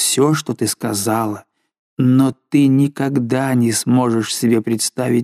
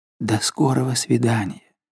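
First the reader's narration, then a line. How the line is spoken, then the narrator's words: Barely audible whisper. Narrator (Russian): ты чуть слышно прошептала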